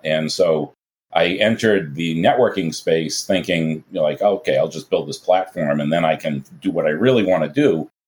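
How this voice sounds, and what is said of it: Boston accent. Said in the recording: “relocated from Boston, you might have detected the accent”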